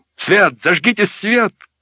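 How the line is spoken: Shout. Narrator (Russian): крикнул он

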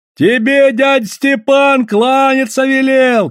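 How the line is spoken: Distant shouting. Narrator (Russian): кричали с баржи

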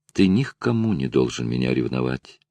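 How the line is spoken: Tender whisper. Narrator (Russian): ласково прошептала Лара

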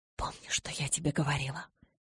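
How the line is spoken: Tearful whisper. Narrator (Russian): едва сдерживая слезы, прошептала

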